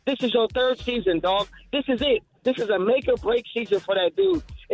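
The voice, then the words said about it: Angry, frustrated, passionate delivery. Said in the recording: “y'all hear it in my voice. I'm livid, dog ... Oh, the passion, the fire. I feel it.”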